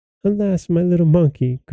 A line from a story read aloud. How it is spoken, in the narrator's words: cried the princess